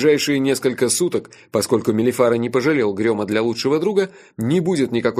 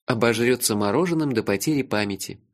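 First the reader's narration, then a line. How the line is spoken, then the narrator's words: Said tenderly. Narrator (Russian): нежно сказал я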